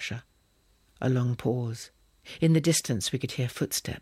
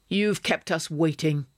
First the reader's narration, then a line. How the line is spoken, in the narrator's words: snapped Pasha